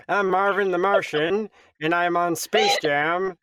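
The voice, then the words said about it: Cartoon Marvin the Martian voice. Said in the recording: “Okay, Marvin the Martian. ... Greg Sipes is doing my voice”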